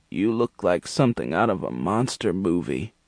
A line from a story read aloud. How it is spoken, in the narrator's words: she croaked